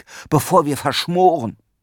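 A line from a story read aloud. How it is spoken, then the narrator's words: Called out. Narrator (German): rief Erik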